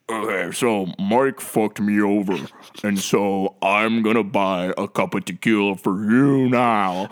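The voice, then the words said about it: Imitates another person's voice. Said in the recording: “That was a really good Blossy impersonation.”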